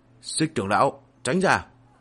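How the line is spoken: Loud warning shout. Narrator (Vietnamese): Lăng Tiếu quát to nhắc nhở

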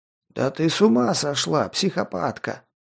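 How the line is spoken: Strained wheeze while struggling. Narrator (Russian): прохрипел барахтаясь в ее хватке

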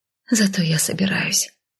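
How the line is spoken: Heavy sigh. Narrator (Russian): вздохнула тяжело

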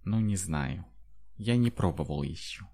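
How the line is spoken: Uncertain. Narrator (Russian): неуверенно сказал Шанти

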